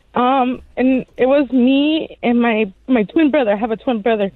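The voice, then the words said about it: Emotional, choked-up voice. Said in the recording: “Sorry, if I get emotional.”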